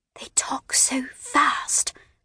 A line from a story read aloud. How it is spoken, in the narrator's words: whispered